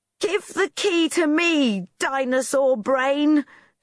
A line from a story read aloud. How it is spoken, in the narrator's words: shouted Rosie